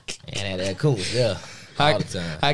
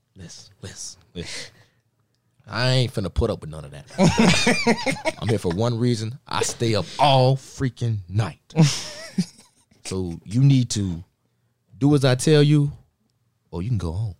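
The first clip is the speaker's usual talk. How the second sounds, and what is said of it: Imitates a football coach's voice. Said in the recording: “your best imitation of Koontz”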